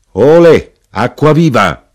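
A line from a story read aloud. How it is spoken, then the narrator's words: Cellarman shouting. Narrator (Italian): gridò Colombo il cantiniere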